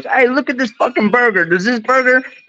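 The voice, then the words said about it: Imitated New York accent. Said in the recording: “New York accent”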